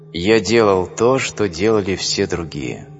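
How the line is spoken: Calm. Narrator (Russian): Он может спокойно сказать

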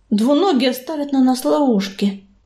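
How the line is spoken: Quiet. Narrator (Russian): тихо проговорила целительница

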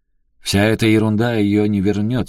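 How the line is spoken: Angry declaration. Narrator (Russian): сердито заявил он

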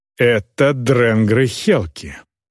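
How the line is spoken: Growled. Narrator (Russian): прорычал Глорнир

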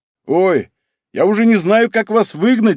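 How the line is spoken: Man laughing. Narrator (Russian): рассмеялся мужчина

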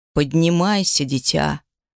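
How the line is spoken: Creaky voice. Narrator (Russian): проскрипел он несмазанным колесом

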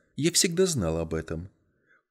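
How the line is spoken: Calm. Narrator (Russian): Она спокойно ответила

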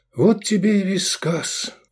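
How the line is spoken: Sigh. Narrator (Russian): вздохнул Эдик

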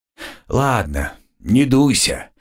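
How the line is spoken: Conciliatory tone. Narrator (Russian): примирительным тоном произнес

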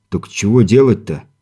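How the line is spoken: Displeased mutter. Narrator (Russian): недовольно буркнул Виктор

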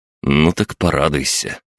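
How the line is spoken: Snorting. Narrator (Russian): хмыкнул

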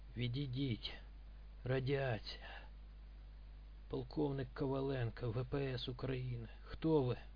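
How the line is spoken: Hoarse rasp. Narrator (Russian): он прохрипел

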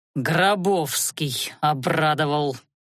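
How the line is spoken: Through gritted teeth. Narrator (Russian): процедил Анхайлик

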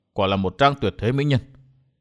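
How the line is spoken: Soft inner murmur. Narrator (Vietnamese): chàng khẽ nhủ thầm

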